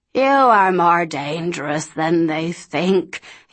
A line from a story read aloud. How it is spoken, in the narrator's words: he croaked